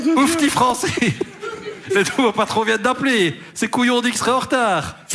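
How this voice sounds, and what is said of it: Put-on Liège Belgian accent. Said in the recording (French): “ça, c'est un accent liège”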